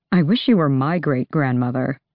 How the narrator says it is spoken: Dorian muttered

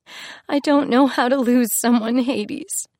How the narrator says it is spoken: she sobbed into his chest

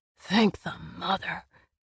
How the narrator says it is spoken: he swore

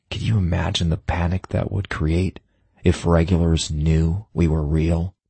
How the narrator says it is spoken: I sighed, shoulders slumping

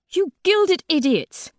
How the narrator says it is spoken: Fig snaps at the soul guards

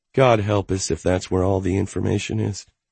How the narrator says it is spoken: she mumbled

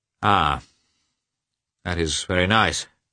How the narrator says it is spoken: he said gloomily

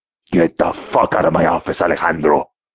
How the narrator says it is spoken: He roared

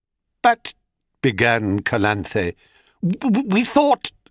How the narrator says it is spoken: stammered Zona, and then, both together

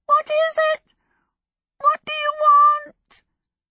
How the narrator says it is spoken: It cried out in a shrill, crackling voice

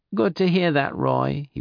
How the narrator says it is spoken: he whined

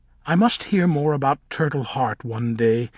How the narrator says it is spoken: said in a light voice

